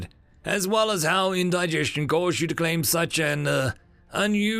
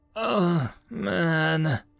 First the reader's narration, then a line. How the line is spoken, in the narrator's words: John groaned